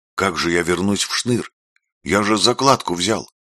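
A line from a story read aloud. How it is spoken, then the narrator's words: Frightened question. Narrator (Russian): спросил Даня испуганно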